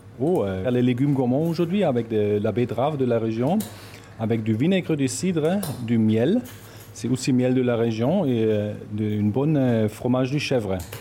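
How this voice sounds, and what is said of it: German accent speaking French. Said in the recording (French): “votre accent, il n'est pas ultra local ... en origine, je viens d'Allemagne”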